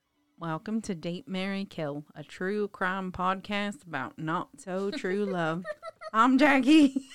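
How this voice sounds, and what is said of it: Put-on accent. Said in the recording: “are you practicing your accent? ... I was just trying to spice it up a little bit. ... I don't think that I like that accent,”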